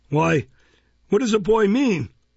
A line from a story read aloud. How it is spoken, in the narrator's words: exclaimed Mr